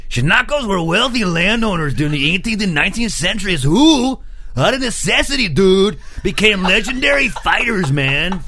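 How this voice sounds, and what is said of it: American surfer-dude accent. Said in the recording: “Am I racist for doing an American one? ... You got a bit surfer, dude.”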